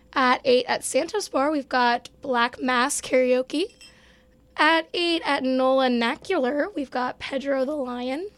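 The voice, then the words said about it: Hoarse, fading voice. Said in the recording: “I'm kind of losing my voice. So expect me to sound like this.”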